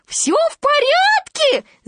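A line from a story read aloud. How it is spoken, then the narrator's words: Shouting through gap. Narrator (Russian): закричал он в щель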